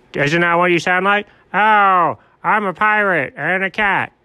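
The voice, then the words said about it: Poor imitation of another person's voice. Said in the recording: “perhaps the worst imitation of me anyone's ever done”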